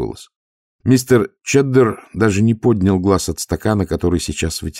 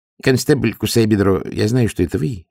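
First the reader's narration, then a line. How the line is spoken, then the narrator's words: Calm. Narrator (Russian): спокойно сказал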